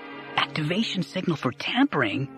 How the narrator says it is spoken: Dara whispered

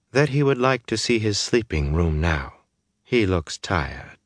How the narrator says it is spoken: Amice cut her off smoothly

